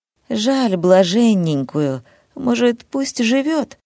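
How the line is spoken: Uncertain question, man. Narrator (Russian): неуверенно спрашивает хозяин дома

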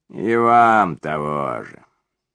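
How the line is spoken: Joking grumble. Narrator (Russian): шутливо пробурчал Коновер

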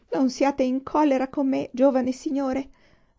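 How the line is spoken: Pleading. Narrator (Italian): supplicò

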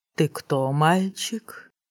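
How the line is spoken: Sweet cooing. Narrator (Russian): заворковал колдун

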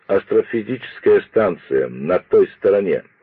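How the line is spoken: Plain. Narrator (Russian): ответил Пиркс

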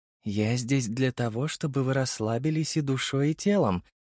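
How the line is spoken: Seductive purr in ear. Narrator (Russian): промурлыкала девушка на ухо своему благодетелю

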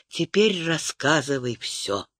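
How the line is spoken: Soft, gentle. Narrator (Russian): Лиана мягко произнесла

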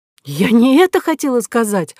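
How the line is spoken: Exclaiming. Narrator (Russian): воскликнула Кора

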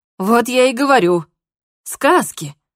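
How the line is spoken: Joyful chiming in. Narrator (Russian): Радостно подхватил Ричард

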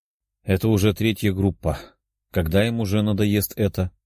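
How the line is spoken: Sighed. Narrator (Russian): вздохнул Денис

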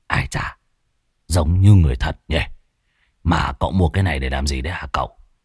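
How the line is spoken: Muttering. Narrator (Vietnamese): Lão Muôn Phọt ròm ròm, lẩm bẩm

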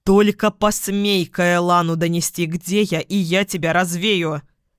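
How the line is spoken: Barked. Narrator (Russian): Рявкнула я

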